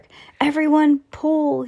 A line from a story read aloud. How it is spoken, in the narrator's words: shouted